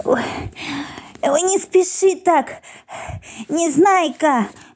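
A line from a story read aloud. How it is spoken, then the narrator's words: Pleading. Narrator (Russian): взмолился Пончик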